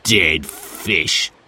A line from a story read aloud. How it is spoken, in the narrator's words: sneered Sid